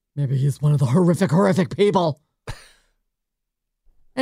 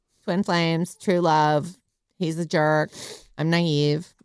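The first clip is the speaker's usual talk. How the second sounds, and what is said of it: Impression of Megan Fox. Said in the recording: “Turns out my impersonation of her is not as bad as I thought it was... Turns out that's how she talks.”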